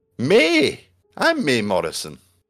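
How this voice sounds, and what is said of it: Put-on accent for a character. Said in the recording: “Even gave the accent as well. He's committing. He's committing to it”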